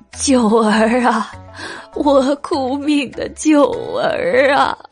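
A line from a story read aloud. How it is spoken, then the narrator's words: Weeping old lady. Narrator (Chinese): 马老太君一边哭泣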